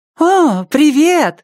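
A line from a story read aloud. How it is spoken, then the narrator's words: Joyful. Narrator (Russian): радостно сказала Хезер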